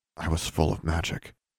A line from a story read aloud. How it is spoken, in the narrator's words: she said quietly